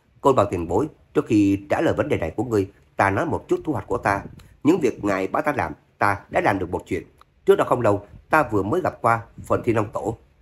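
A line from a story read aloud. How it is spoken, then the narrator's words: Brief laugh, then gentle. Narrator (Vietnamese): Trác Phạm bật cười một tiếng, nhẹ nhàng nói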